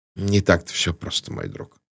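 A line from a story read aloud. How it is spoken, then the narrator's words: Grumbled. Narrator (Russian): буркнул Пуаро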